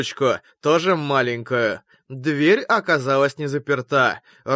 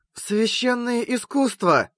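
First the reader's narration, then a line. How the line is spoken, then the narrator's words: Whispered from behind. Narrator (Russian): прошептала сзади Алиса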